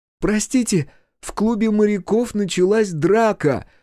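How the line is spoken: Shouted. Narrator (Russian): закричала она

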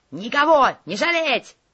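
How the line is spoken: Leader barking. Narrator (Russian): рявкнул главарь

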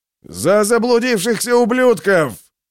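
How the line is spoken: Roared. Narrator (Russian): проревел кто-то

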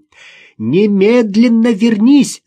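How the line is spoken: Shouting. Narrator (Russian): закричала Ирина

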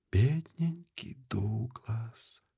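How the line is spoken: Whisper. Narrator (Russian): прошептала она

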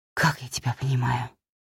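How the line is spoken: Whisper. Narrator (Russian): прошептала я

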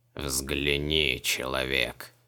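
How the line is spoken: Monster's creaky voice through mask. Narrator (Russian): Проскрипел монстр из-под маски

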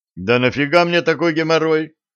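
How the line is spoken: Indignant. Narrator (Russian): возмутился журналист

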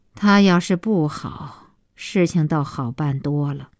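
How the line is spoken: Long sigh. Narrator (Chinese): 小西妈长叹

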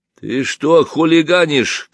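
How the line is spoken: Stern question. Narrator (Russian): строго спросил тащивший меня за рукав рабочий

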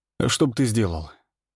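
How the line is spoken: Calm interruption. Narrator (Russian): спокойно перебил я

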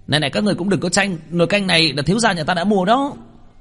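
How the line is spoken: Shrill voice. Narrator (Vietnamese): một cái giọng the thé

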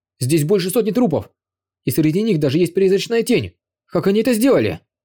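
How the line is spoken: Exclaimed. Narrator (Russian): воскликнул один из его боевиков

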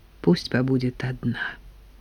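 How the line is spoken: Low voice. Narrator (Russian): вполголоса сказала Нина Порфирьевна Коле

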